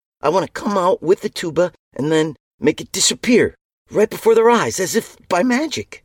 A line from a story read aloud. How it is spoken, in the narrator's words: the kid continued excitedly